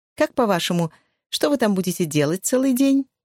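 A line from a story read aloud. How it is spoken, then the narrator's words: Cheerful question. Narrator (Russian): весело спросила Розмари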